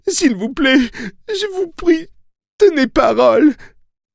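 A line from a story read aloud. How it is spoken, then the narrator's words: Moaning plea. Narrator (French): gémit-elle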